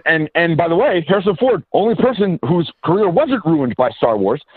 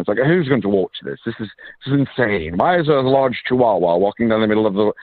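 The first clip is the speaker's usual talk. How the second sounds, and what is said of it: Put-on English accent. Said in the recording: “they're doing it in the English accents.”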